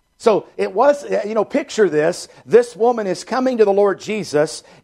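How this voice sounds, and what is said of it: Loud emphatic preaching voice. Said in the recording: “I know my voice is a little, I'm in the preaching voice right now”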